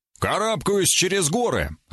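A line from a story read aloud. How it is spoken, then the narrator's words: Barked. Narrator (Russian): рявкнул я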